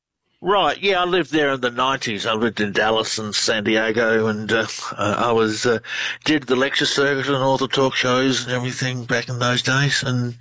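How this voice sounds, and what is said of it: Australian accent. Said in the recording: “Australian researcher. Love the accent. ... You all have the accent, and we love it. ... You do. You have a great one.”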